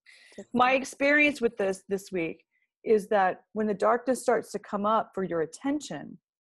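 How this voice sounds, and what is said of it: Voice giving out, strained. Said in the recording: “my voice is starting to go.”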